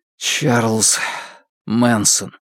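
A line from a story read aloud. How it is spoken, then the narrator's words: Dull, muffled mutter. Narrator (Russian): глухо пробормотал Фан Му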